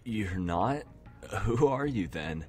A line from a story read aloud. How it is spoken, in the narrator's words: chuckled confusedly